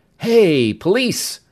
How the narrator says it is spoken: Mel exclaimed with a happy grin

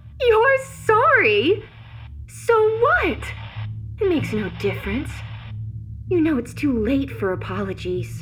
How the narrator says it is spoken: She laughed aloud in open mockery, saying

